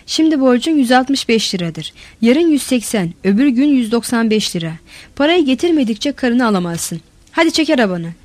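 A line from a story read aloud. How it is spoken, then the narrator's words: Shouting. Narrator (Turkish): diye bağırdı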